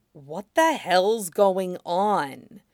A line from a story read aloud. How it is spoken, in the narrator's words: A bare whisper, not a hint of hiss that would make it carry